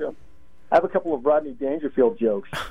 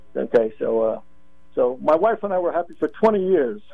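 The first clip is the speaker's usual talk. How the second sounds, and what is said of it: Barely passable Rodney Dangerfield impression. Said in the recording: “my barely passable Ronnie Dangerfield impersonation”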